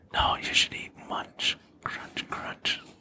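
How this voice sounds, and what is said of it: Soft whispery ASMR voice. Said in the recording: “ASMR voice.”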